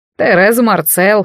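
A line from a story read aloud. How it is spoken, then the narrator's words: Amused snort. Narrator (Russian): хмыкнул дядя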